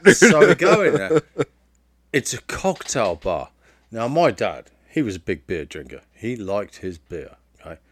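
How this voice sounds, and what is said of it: Thick British accent. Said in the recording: “I'm assuming he has an even thicker accent than you do ... an angry British man”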